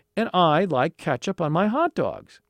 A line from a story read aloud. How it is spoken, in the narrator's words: Alan exclaimed